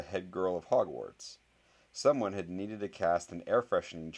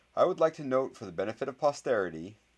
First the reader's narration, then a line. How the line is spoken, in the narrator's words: said the boy who lived in a clear voice